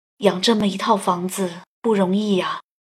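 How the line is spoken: Muttering to himself. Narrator (Chinese): 爸爸喃喃自语

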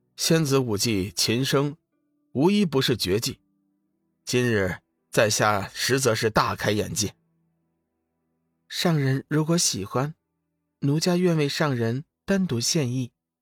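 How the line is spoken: Flat, detached. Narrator (Chinese): 龙宇淡淡说道

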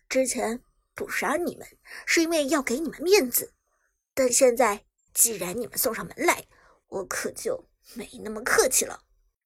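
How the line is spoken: Cold sneering. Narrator (Chinese): 苏哲冷冷一笑

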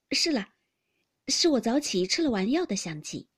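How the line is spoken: Thoughtful, laughing. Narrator (Chinese): 宝钗想了一想，笑道

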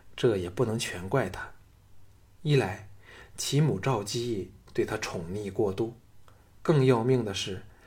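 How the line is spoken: Soft sigh. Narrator (Chinese): 轻叹道

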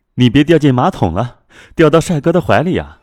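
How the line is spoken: Laughing teasing scold. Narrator (Chinese): 姐妹们笑骂着

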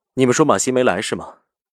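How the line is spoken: Faint smile. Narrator (Chinese): 勾唇淡淡笑着道

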